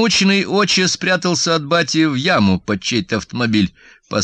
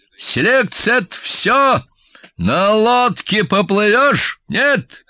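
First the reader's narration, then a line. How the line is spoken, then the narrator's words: Loud bark. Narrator (Russian): громко рявкнул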